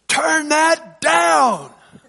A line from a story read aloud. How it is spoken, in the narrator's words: He shouted at the end of my song